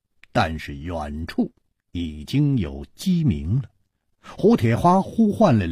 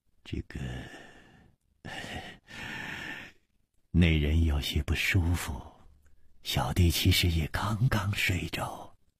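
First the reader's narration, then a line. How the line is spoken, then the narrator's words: Sighing. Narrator (Chinese): 李玉涵 也叹了一口气说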